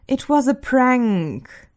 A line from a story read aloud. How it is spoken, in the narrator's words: Stiles moans